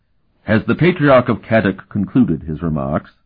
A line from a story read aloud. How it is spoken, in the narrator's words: he asked